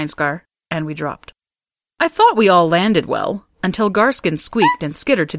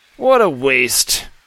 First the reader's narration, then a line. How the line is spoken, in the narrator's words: Benestre muttered